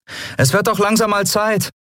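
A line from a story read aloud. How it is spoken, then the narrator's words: Called back. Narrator (German): rief Endriel zurück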